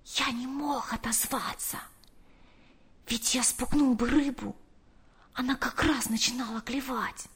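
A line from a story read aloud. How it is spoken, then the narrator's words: Whispered. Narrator (Russian): прошептал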